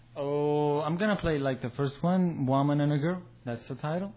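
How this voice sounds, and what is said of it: Heavy foreign accent. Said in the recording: “I couldn't understand through the accent”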